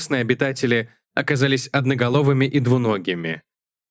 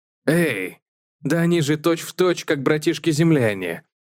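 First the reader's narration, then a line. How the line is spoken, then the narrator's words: Exclaim. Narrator (Russian): воскликнул Джексон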